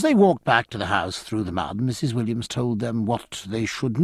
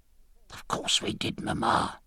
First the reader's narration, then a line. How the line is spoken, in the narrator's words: hissed the girls